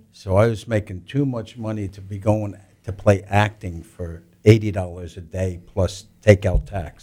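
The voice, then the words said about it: New York accent. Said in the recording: “With your accent,... Is like the evil New Yorker coming down?”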